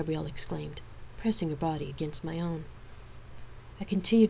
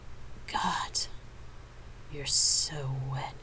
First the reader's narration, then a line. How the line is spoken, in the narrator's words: moaned at the first touch